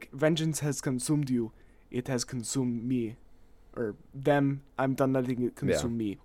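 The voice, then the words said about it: Imitates a film character's voice. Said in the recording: “That's my Black Panther impression.”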